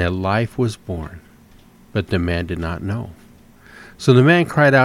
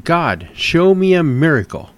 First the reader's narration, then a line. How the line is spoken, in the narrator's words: the man shouted